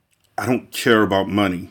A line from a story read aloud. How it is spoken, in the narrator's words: he said so tightly that the words seemed to escape him without parting his fiercely compressed lips